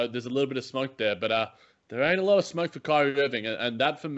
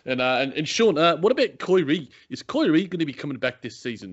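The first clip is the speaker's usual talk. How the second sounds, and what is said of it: Put-on New Zealand accent. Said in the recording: “I can do a good Kiwi accent ... I'm happy to impersonate”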